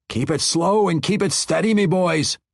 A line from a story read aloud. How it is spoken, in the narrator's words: Bruner yelled